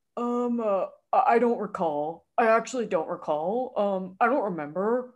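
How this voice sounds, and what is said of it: Imitates another person's voice. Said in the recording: “Wait, that was such a good impression. ... is Elizabeth Holmes' voice.”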